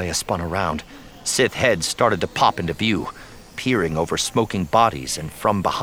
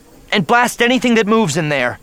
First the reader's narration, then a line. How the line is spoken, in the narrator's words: yelled